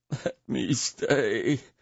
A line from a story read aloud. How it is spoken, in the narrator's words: Fukai whimpered